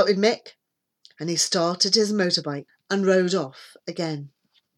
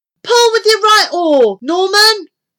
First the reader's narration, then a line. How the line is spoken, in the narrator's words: shouted Debbie